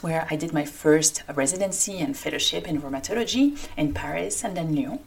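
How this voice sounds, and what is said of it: French accent. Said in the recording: “like my accent indicates, I come from France”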